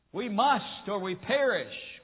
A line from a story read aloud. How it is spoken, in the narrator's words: cried the captain of the wooden vessel as it creaked and groaned in the mountainous waves